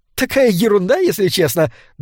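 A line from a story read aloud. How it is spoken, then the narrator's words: Embarrassed giggle. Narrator (Russian): добавила она, смущенно хихикнув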